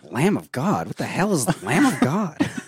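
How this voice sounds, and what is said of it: Weird little wormy guy voice. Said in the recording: “Can I do an impression for you? ... Christian Mikey Miles ... You did a Mikey Miles impression ... It's pretty good ... I can sound like a weird little wormy guy.”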